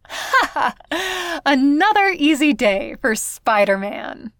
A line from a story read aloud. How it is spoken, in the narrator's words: laughs, and says